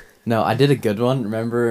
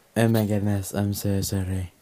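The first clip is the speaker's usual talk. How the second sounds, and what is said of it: Good Trump impression. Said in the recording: “That was a good Trump accent.”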